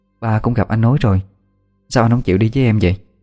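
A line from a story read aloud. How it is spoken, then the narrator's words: Hesitant. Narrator (Vietnamese): Ngập ngừng mãi, Huy mới mở lời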